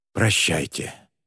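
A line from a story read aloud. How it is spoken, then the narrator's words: Quiet breathy farewell. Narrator (Russian): тихо выдохнул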